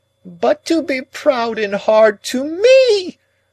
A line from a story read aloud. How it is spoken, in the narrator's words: Miss Havisham quite shrieked